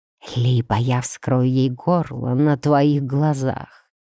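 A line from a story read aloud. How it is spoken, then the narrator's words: Whispering vampire, close. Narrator (Russian): прошептал вампир, обдав мою шею холодным дыханием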